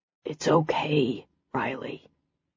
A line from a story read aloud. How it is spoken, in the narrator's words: he rasped out